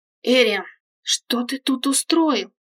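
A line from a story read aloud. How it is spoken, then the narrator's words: Hissing. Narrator (Russian): зашипела снежная луна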